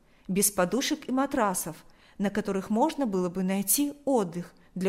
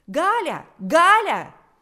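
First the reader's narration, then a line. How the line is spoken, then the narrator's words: Shrill shout. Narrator (Russian): закричал пронзительный голос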